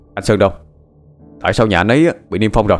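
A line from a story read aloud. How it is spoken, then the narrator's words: Shouted question. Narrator (Vietnamese): Linh quát hỏi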